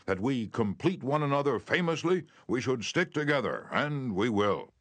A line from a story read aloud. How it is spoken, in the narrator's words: he exclaimed with enthusiasm